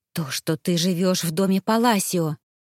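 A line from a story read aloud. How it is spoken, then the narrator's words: Hissing, near shouting. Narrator (Russian): прошипела она, борясь с тем, чтобы перейти на крик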